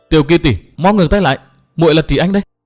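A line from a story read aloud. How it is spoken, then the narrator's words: Loud alarmed voice. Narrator (Vietnamese): Trì Anh kinh hãi vô cùng, lớn tiếng nói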